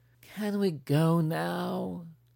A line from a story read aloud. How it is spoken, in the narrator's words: She whined